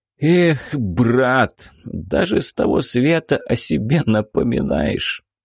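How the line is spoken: Tearful, smiling. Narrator (Russian): Сквозь слезы Юрий улыбнулся

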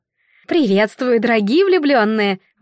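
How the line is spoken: Exclaimed. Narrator (Russian): воскликнула она

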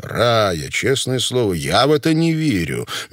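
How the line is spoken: Soft. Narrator (Russian): мягко сказал Покровский

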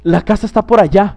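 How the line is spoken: Exclaiming. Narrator (Spanish): exclamó Scrooge

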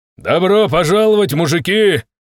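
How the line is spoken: Shouting. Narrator (Russian): крикнул я

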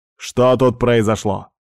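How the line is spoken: Loud question. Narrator (Russian): громко спросил Дориан

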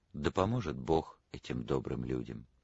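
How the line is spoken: Sighing tender murmur. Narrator (Russian): Она вздохнула, нежно пробормотала

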